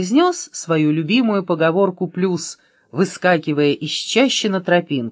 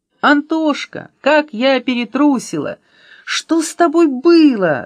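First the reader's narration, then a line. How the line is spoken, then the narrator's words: Shouted. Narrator (Russian): закричала Аля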